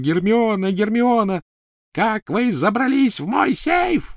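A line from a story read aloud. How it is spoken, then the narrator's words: Shrieking. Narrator (Russian): визжала Беллатриса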